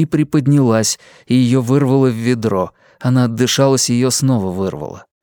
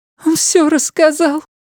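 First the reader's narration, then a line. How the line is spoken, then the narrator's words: Sobbing. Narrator (Russian): всхлипнула она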